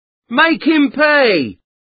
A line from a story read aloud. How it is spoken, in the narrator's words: shouted